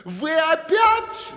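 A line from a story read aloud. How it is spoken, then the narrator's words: Shouted. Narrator (Russian): закричала королева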